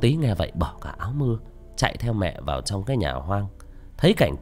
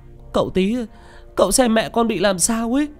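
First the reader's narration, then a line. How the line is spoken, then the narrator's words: Crying, breathless sobbing. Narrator (Vietnamese): Mẹ vừa mếu máo, vừa chạy vừa khóc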